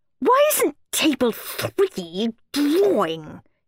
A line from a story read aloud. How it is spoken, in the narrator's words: hissed Miss Battle Axe